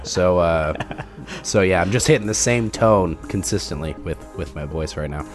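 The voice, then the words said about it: Deep, congested voice from a cold. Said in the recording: “I have a cold, as you could probably tell by my deep, sultry voice. It's more deeper and more sultry than normal.”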